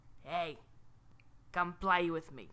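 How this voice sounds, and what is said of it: Raspy New York character voice. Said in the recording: “This sounds eerily similar to the accent that the flowers had in our story last week. ... I'm trying not to make it raspy. ... They all sound like New Yorkers. They all sound like raspy New Yorkers.”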